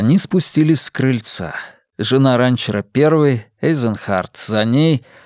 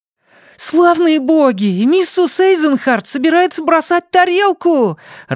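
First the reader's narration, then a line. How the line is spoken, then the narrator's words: Joyful exclamation. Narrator (Russian): радостно воскликнул Бенни Слайтман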